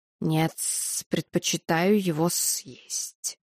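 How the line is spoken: Snake hissing. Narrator (Russian): прошипел змей

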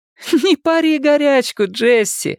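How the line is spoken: Loud laughter. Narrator (Russian): расхохоталась

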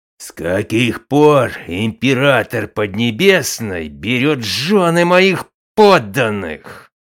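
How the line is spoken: Roaring. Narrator (Russian): проревел

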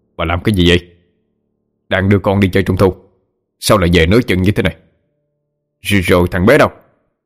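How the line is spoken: Annoyed snap. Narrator (Vietnamese): Bực mình, lão Khánh gắt lên

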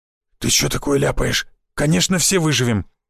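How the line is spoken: Frightened hoarse blurt. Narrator (Russian): испуганно выпалил хриплый

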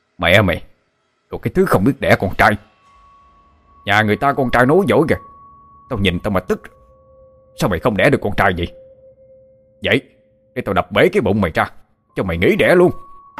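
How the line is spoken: Drunken furious cursing. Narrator (Vietnamese): say xỉn ông Tám lên cơn điên chửi thành lớn tiếng

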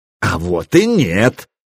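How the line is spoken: Joyful exclamation. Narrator (Russian): радостно воскликнул косичка усый

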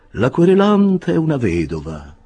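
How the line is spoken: Sweet, melancholy voice. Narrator (Italian): continuò l'avvocato Buzzfuzz con voce dolce e malinconica

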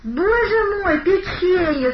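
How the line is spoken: Childlike exclamation. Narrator (Russian): совсем по-детски воскликнул Савелий

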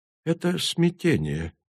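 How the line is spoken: Quiet. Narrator (Russian): тихо сказал Асанг

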